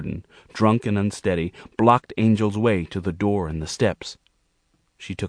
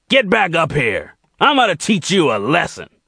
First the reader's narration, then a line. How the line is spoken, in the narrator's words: Jordan's angry roaring echoed down the steps